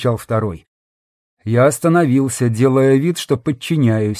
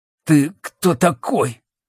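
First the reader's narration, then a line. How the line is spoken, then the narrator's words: Forced out, hesitant. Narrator (Russian): Наконец выдавил из себя один, видимо, старший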